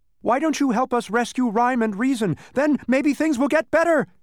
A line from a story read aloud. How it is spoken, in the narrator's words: shouted Milo again, this time almost too late